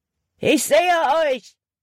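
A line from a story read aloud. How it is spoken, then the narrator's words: Called out. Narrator (German): rief Hutton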